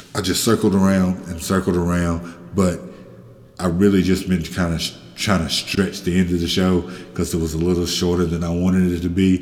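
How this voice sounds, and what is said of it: Voice sounding off, not well. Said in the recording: “Excuse my voice. ... hopefully sounding better in the next week”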